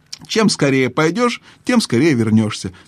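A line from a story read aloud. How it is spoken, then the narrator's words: Cheerful reply. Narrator (Russian): весело ответил дядя Эндрю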